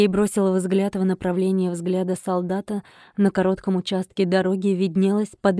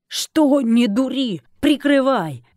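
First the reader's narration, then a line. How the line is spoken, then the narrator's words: Shout. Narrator (Russian): Снова крикнул Сергей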